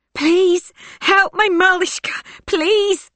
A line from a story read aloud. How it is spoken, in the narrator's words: sobs Maria